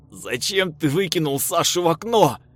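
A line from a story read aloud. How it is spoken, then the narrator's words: Roaring. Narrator (Russian): взревел я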